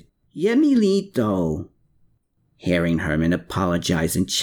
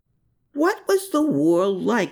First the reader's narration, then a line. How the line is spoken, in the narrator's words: She cried out in exasperation